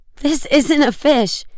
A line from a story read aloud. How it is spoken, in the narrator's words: he cried out excitedly